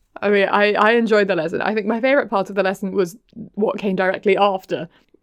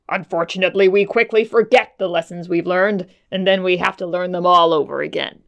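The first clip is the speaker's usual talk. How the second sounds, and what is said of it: Imitated male character voice. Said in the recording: “That's my Jet Black impression. ... Don't quit your day job of acting. ... normally I'm not employed to voice over male characters”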